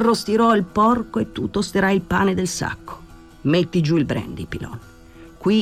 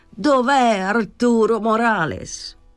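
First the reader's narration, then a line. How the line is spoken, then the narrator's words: Shout. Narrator (Italian): gridò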